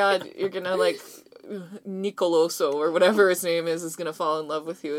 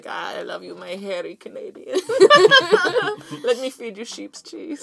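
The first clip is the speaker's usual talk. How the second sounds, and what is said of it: Attempted Greek accent. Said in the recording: “don't know how to do a Greek accent.”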